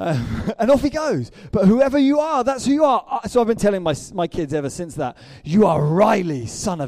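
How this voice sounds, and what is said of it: Usual voice. Nothing is said of it.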